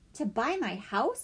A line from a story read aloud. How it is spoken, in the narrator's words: Althea asked